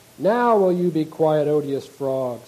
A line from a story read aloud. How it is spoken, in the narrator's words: said she